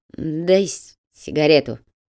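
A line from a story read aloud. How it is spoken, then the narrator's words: Hoarse request. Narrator (Russian): хрипло попросила Петра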